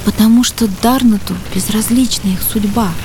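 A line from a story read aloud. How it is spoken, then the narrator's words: Princess's quiet whisper. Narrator (Russian): тихо прошептала принцесса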